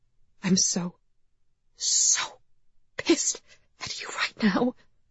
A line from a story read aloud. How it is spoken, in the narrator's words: she whispered